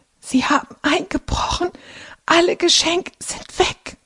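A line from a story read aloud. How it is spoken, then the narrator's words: Croaking. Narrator (German): krächzt Carlotta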